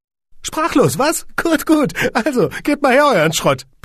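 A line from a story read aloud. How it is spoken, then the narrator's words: Squeaky little man. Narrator (German): piepste das Männchen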